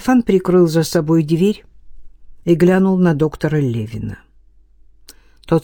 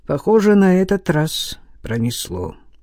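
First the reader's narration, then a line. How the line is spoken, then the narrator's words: Tired voice. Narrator (Russian): уставшим голосом произнес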